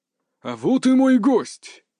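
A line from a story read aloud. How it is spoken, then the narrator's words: Exaggeratedly joyful exclamation. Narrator (Russian): преувеличенно радостно воскликнул Юсуф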